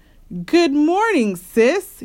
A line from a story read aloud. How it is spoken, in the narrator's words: he said brightly